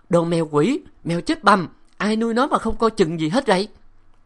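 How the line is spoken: Woman shouting. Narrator (Vietnamese): Nàng hét

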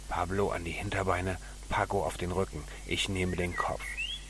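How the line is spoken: Whispering. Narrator (German): Pancho flüsterte

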